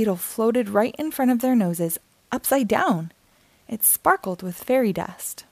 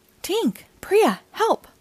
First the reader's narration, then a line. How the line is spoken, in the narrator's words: Terence cried